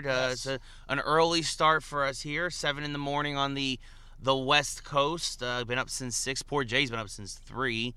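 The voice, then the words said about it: Hoarse, tired voice. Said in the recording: “We're both a little hoarse, both a little tired.”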